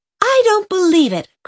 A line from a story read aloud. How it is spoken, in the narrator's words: cried Jen